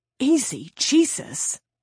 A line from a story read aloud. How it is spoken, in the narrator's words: he hissed